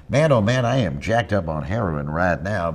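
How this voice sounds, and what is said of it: 1970s baseball announcer voice. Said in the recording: “It started as a voice, as most of my characters do. It's a voice that I grew up imitating. The baseball announcer of the 1970s, they all sounded like this”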